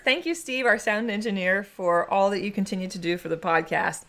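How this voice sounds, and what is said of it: Hoarse, froggy throat. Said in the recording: “I've got a frog in my throat, and I can't get it out.”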